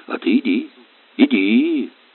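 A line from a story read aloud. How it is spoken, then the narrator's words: Unexpectedly calm. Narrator (Russian): неожиданно спокойно сказал он Горелову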